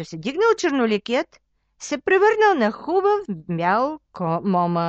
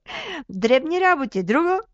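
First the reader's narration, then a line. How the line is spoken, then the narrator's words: Laughing hero. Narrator (Bulgarian): засмял се юнака със звезда на челото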